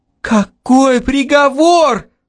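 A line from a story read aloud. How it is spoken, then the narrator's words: Sudden howl. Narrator (Russian): Неожиданно взвыл я сам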